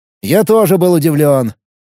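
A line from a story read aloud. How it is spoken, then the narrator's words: Irritated. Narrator (Russian): раздраженно ответил маг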